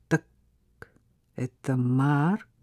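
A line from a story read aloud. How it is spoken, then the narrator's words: Through clenched teeth. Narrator (Russian): проговорил он сквозь зубы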